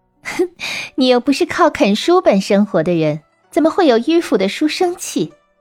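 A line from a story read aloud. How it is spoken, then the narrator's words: Laughing. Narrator (Chinese): 女郎就笑着对他说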